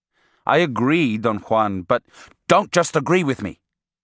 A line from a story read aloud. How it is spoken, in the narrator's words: he snapped